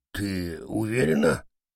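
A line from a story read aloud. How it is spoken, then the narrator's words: Barely audible question. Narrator (Russian): едва слышно спросил попугай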